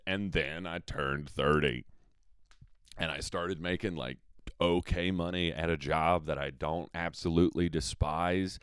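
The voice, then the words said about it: Slight Southern drawl. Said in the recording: “I don't know why I'm turning into, like, slight Southern drawl me”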